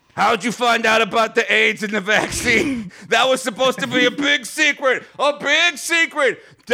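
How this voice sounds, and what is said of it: Put-on accent. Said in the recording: “Let me get my accent back.”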